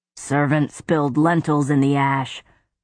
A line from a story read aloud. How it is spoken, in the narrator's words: one of the guards grunted